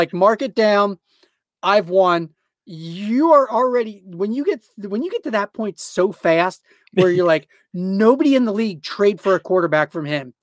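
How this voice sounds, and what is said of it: Excited, animated speaking voice. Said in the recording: “as you can probably tell from my voice, I've gotten a little excited here”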